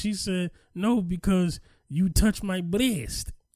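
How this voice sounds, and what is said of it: Reenacts a woman's accented speech. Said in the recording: “she had an accent ... I'm only laughing at the accent ... I'm laughing at the reenactment of the accent”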